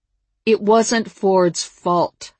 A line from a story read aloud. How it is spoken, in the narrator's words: I said loudly